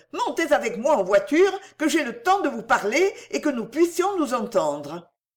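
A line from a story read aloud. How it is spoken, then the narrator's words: Exclaiming. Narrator (French): s'écria Cécile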